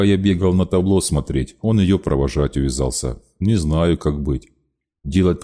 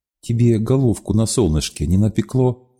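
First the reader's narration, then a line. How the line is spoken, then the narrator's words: Very sweet inquiry. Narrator (Russian): она очень ласково осведомилась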